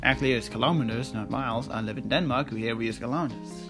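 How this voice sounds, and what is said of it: Danish accent. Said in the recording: “I'm pronouncing it with my accent, Danish.”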